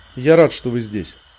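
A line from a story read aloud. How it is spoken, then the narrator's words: Plain. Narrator (Russian): сказал он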